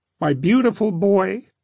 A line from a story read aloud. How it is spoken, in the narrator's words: he sobbed